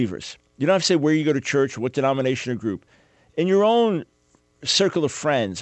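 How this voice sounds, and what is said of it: Usual voice. Nothing is said of it.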